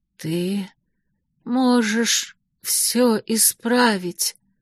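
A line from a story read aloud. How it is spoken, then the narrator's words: Barely audible whisper. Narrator (Russian): чуть слышно прошептала она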